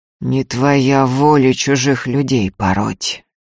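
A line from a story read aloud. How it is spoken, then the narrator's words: Through clenched teeth. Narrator (Russian): сквозь зубы заметил Ефим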